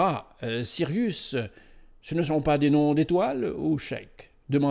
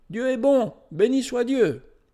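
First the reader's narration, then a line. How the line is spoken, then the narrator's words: Exclaiming. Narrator (French): Il s'écrie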